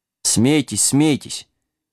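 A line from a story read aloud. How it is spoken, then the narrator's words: Good-natured snort. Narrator (Russian): беззлобно хмыкнул песик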